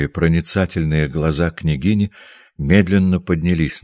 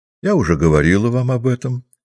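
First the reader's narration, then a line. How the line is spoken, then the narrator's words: Calm. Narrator (Russian): спокойно сказала княгиня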